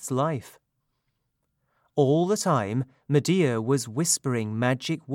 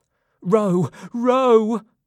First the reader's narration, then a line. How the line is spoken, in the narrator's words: Medea cried